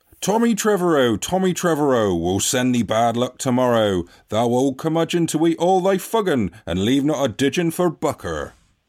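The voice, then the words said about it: Put-on regional folk accent. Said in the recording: “I'm going to do the accent ... That's pretty good, that. ... That is quite good.”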